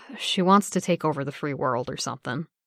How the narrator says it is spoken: he sighed into the dark and said

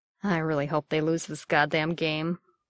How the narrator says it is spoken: Bucky muttered

